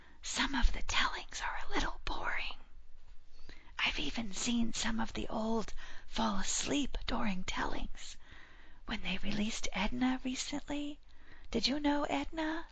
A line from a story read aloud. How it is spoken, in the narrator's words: whispered with a mischievous look